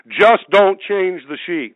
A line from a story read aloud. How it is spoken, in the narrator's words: Smith Wigglesworth, this mighty giant of the anointing of God, yelled back to this lady